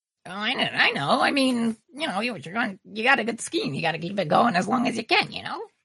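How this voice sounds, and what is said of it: Strained, throaty character voice. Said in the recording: “Is your throat okay, or do you just sound like that? ... Doing that voice really does a number on me”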